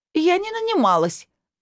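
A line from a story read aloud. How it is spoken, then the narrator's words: Shriek. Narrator (Russian): взвизгнула Алла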